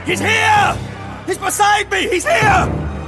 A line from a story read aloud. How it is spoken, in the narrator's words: shouted to the crowd